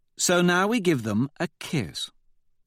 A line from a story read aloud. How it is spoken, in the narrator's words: Victra says, with a little purr for Holiday